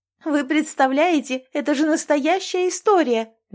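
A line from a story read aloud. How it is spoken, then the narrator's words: Shrieking TV host. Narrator (Russian): визжала в прямом эфире ведущая утреннего шоу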